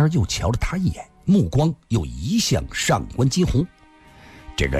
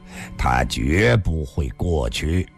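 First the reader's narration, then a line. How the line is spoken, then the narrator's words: Cold sneer. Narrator (Chinese): 吕凤仙冷笑地说道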